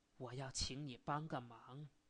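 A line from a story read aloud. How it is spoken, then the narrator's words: Low, earnest. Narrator (Chinese): 钱先生低声而恳切地说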